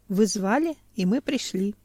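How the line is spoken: Calm, formerly dead man. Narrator (Russian): спокойно сказал бывший покойник

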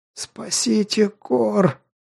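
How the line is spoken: Hoarse rasp. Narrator (Russian): прохрипел

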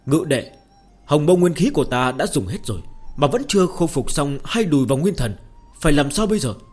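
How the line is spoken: Raised voice. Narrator (Vietnamese): cao giọng nói

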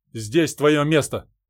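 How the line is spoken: Commanding. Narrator (Russian): приказным тоном заявил Владимир

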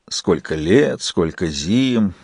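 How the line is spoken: Sarcastic drawl. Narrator (Russian): язвительно протянул Джек

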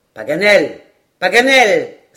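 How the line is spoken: Exclaiming. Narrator (French): s'écria Glenarvan

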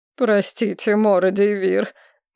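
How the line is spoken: Gloomy mutter. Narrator (Russian): уныло пробормотал один

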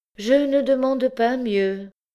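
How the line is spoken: Sighing. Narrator (French): dit Oudarde en soupirant

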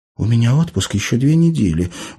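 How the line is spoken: Sad reminder. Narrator (Russian): грустно напомнила Тася

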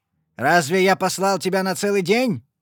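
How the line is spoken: Barked. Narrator (Russian): рявкнул он

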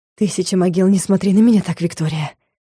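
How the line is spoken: Hoarse whisper. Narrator (Russian): хриплым голосом прошептал магистр

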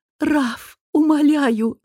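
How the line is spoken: Moaning. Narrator (Russian): стонала она

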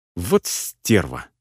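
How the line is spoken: Angry female friend. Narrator (Russian): зло заявила подруга

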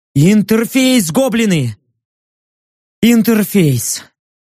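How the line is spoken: Tired, joyful rasp. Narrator (Russian): Устало, но радостно прохрипел я

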